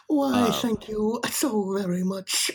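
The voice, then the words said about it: Winnie the Pooh voice impression. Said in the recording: “I love your Winnie the Pooh impression.”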